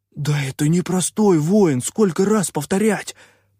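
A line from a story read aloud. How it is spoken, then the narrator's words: Hissed through bared fangs. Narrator (Russian): прошипел попрыгун, скаля клыки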